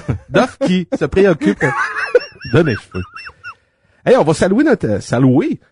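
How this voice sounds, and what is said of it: Usual voice. Nothing is said of it.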